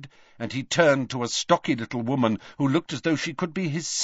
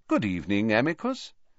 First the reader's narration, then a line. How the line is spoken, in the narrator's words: said Dumbledore calmly, as though welcoming the man to a tea party